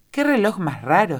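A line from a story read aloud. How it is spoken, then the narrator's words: Exclaiming. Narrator (Spanish): exclamó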